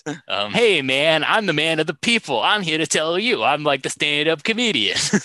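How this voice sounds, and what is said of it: Imitated quasi New York accent. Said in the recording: “with his quasi New York accent.”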